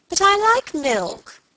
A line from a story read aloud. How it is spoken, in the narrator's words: cried Helen